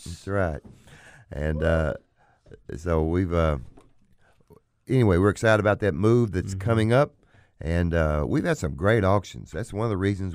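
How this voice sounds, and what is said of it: Hoarse, sick-sounding voice. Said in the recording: “I'm hoarse and sick, because I'm woe out.”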